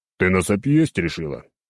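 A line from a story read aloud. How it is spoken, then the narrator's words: Grumbling. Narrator (Russian): проворчал я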